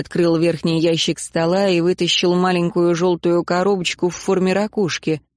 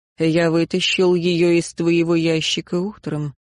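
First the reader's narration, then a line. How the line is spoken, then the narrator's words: Calm. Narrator (Russian): спокойно ответил он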